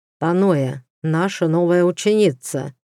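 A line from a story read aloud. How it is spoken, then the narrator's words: Plain. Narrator (Russian): сказал Айлаш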